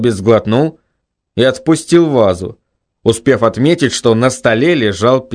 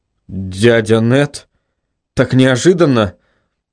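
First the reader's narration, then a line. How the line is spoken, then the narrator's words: Forced out with difficulty. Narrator (Russian): Только и смог выдавить Бартлби из себя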